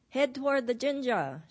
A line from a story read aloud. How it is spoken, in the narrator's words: shouted Norio